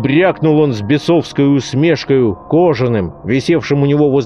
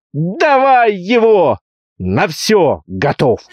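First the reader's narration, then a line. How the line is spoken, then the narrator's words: Shouted. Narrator (Russian): закричал Петро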